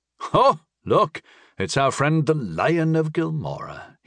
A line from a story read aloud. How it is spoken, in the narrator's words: said, chuckling